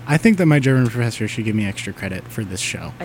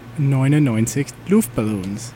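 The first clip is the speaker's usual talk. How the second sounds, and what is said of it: German accent. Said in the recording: “as Aiden would say in a German accent.”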